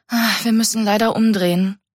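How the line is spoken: Sighing. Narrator (German): seufzte Mika

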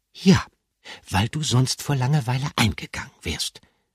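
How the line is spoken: Gentle. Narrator (German): sagte Gruyère sanft

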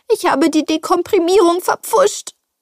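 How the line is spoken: Wailing. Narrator (German): jammerte sie

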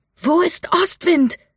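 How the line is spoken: Shouting against wind. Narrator (German): schrie Mika gegen den Wind

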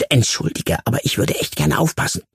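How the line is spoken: Hissing. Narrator (German): zischte

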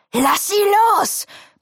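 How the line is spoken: Roaring. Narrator (German): brüllt Phoenix

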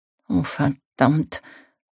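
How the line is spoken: Muttering. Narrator (German): murmelte sie

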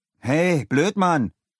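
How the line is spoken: Calling out. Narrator (German): rief Leo

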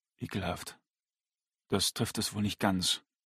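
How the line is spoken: Man replying gently. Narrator (German): erwiderte der Mann sanft

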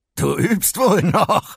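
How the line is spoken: Laughing. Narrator (German): meinte Electro lachend

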